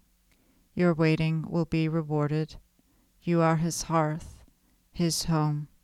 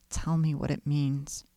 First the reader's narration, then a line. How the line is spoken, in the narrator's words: begged